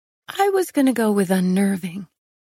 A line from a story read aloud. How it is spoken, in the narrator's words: I said